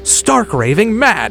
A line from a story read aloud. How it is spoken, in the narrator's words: Sheila shouted back